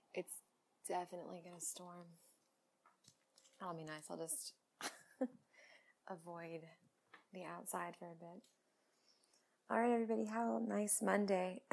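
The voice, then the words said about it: Slightly scratchy voice. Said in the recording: “I need to drink something because my voice is a little scratchy”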